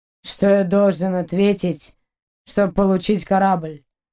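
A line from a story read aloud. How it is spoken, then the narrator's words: Low growl. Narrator (Russian): Она низко зарычала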